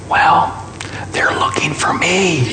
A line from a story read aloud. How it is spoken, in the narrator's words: whispered Jimmy